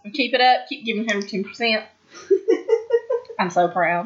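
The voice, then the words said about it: Put-on accent. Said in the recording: “you have to talk in that accent.”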